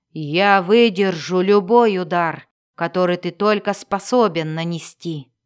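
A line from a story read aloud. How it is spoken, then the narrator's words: Defiant growl. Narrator (Russian): прорычал он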